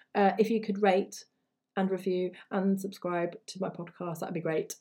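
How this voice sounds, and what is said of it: Tired, fading voice. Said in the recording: “I feel like I'm losing my voice”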